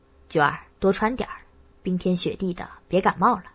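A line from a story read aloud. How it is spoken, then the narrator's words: Low, caring instruction. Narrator (Chinese): 我低声嘱咐她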